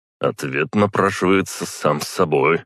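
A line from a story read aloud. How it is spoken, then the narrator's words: Smirking grunt. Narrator (Russian): хмыкнул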